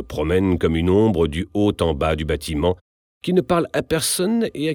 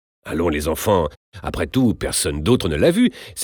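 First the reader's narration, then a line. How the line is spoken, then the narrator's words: Exclaimed. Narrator (French): s'exclame la Sorelli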